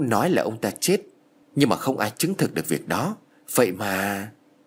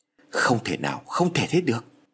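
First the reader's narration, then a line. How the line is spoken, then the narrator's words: Frightened stammering. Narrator (Vietnamese): ông Phát nổi ra gà lắp bắp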